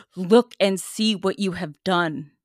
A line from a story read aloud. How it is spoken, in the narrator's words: The girl, Linda, ... said to us in a bold voice